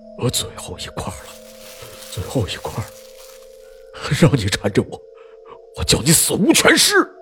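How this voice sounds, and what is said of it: Quiet muttering, angry and fearful. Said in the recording (Chinese): “小声嘀咕着，愤怒中带着恐惧”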